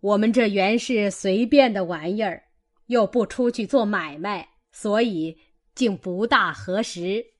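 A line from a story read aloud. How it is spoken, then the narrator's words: Laughing. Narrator (Chinese): 贾母笑道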